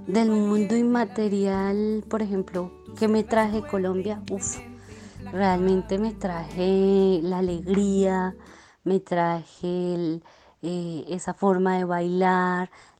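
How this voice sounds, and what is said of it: Colombian Spanish accent. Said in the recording (Spanish): “nuestro acento, la forma bonita que gusta aquí a mucha gente, en especial en España, de cómo nosotros hablamos, el acento”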